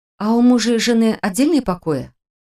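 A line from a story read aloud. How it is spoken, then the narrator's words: Very quiet whisper. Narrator (Russian): Совсем тихо прошептала я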